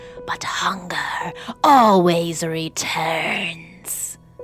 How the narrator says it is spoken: hissed as it faded away

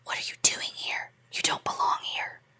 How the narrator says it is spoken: a voice whispers behind me in my right ear

